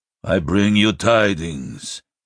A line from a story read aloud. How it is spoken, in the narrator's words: Iskrimnor said stiffly, uncertain of how to proceed